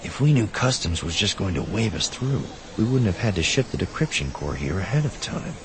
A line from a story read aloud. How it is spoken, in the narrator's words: Safely out of earshot, Theron couldn't help but whisper